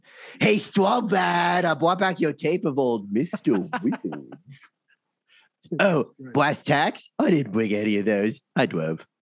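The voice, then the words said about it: Cartoon character impression. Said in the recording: “my favorite impression that in my current rotation is Homestar Runner”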